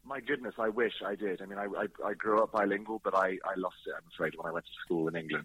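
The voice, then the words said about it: British accent. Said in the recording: “you're Salvadorian / British ... I love your accent, though. I love the accent.”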